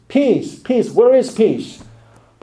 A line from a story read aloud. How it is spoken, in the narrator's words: People may scream in tears